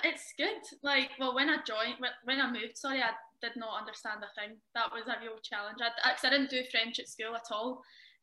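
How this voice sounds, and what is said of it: Strong Glasgow accent. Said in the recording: “great city. As I say, people make Glasgow. And good to see that your accent is still going strong, even though you've been over in France now for a while.”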